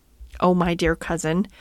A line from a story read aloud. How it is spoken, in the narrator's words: said Lady Anne, laughing